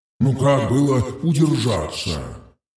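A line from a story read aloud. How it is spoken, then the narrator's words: Grumbled. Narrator (Russian): пробурчал он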